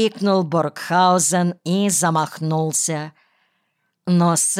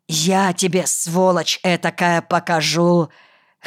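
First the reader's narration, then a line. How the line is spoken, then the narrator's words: Hoarse wheezing. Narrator (Russian): хрипел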